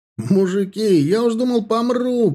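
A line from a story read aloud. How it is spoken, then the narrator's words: Yelling. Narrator (Russian): орал Хмелев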